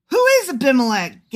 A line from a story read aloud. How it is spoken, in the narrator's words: Gael shouted